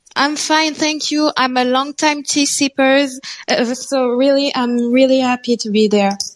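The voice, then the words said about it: Noticeable foreign accent. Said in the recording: “I can hear that accent”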